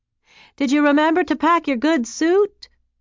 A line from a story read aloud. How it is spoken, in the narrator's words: Clara yelled out from inside the taxi